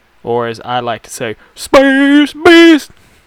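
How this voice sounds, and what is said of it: Weak imitation of another person's voice. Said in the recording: “my impression of Christian von Youngblood, but it was a little weak ... Pretty weak”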